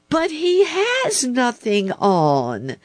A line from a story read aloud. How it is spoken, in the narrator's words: at last cried all the people